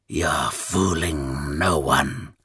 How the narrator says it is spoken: the older one rasped in his ear

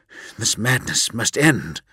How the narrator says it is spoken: breathed Vulcan, appalled at the terror now seizing his tribe

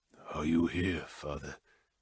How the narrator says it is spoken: asked softly

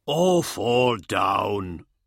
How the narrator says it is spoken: Fulltag growled

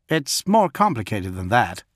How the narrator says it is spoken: said John

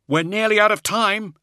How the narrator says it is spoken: he cried out

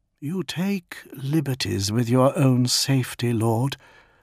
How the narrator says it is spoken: murmured Yutun

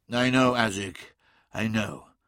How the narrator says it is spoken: said Magnus wearily

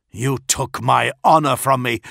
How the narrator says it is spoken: he snarled

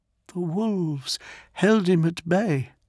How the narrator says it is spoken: she repeated quietly

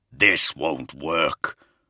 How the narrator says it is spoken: the Primarch snarled

